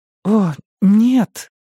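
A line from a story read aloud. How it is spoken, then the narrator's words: Groaning. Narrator (Russian): простонала Саманта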